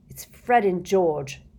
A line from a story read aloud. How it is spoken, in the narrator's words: said bitterly